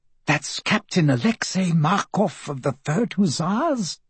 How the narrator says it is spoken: the Countess said in a conspiratorially low voice

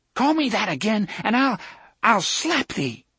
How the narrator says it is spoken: Susan cried

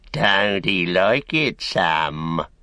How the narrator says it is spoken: he sneered

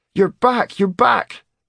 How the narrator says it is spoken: Cade cried

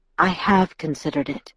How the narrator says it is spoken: Edward answered quietly

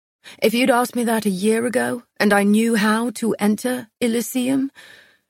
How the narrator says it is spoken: he laughed

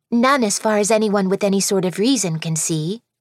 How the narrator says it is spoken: Scarlet answered quickly

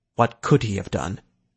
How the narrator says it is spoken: Malthorn sighed

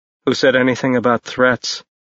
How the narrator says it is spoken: Ash asked calmly

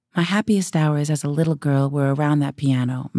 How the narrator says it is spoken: Marilyn said

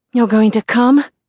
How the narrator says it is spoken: he gasps against my mouth

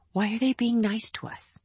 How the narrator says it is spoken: Roby whispered back

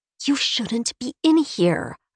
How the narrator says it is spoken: I hiss

